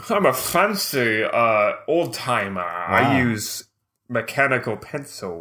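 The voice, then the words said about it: Old man voice, odd accent. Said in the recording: “I don't know what that accent is. It's not good. ... That's like an old man.”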